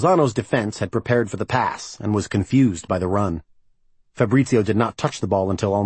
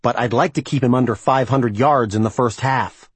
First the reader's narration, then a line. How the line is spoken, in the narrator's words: Sam snapped